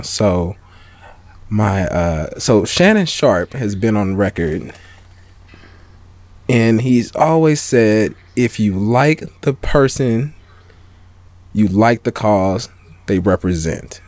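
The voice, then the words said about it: Slow, serious imitation of another person's voice. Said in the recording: “my serious undisputed voice ... I'm gonna be Skip ... You're speaking slow like Skip though. You got it.”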